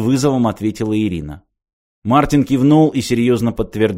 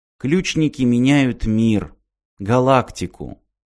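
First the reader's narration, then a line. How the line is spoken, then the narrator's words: Sighing. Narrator (Russian): Ирина вздохнула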